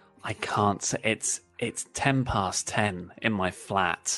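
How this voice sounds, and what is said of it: Usual voice. Nothing is said of it.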